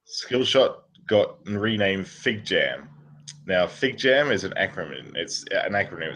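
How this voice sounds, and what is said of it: Australian accent. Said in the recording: “it's better in an Australian accent.”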